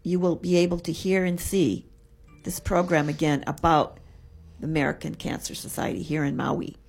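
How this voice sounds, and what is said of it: Slightly hoarse voice. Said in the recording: “I'm getting a little hoarse voice here”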